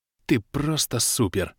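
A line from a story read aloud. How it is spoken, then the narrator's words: Trembling praise. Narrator (Russian): дрожащим голосом похвалил я полуорка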